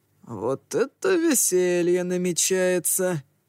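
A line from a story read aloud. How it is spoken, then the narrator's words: Sigh. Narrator (Russian): вздохнул Ронин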